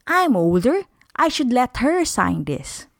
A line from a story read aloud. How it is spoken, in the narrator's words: one girl said